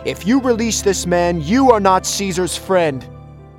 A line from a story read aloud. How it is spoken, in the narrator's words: Someone shouted